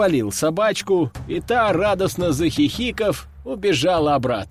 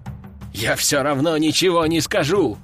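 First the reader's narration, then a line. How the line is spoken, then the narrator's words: Man's growl. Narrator (Russian): прорычал мужик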